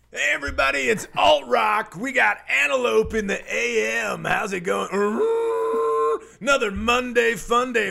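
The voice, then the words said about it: Radio DJ voice. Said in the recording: “Radio DJ Voice”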